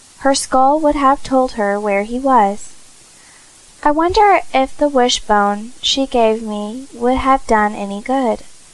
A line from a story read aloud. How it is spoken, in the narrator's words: cried Cecily suddenly